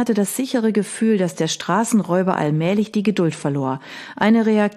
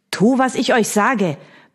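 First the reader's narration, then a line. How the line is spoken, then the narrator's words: Barked harshly by villain. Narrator (German): bellte der Schurke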